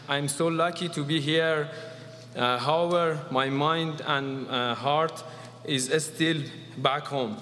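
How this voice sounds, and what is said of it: Non-native English accent. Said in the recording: “Sorry for my accent and sorry for my English.”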